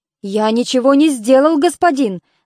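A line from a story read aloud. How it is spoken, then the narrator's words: Frightened voice. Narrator (Russian): ответил Эпей испуганным голосом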